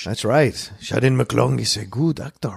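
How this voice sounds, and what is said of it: Attempted French accent, sounds like Banderas. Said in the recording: “What accent was that? ... I thought in my mind French, and then came out Banderas. ... I'm a bit rusty.”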